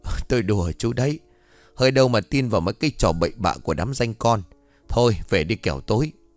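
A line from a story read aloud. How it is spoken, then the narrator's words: Loud laughing. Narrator (Vietnamese): ông Kim cười lớn bảo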